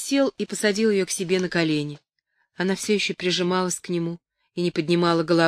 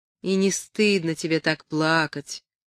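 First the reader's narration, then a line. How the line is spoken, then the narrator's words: Gentle. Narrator (Russian): сказал он ласково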